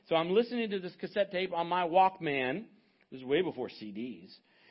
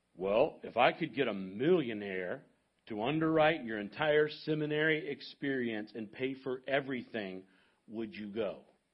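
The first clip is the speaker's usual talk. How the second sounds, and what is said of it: Imitated deep baritone voice. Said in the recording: “in his deep baritone voice,”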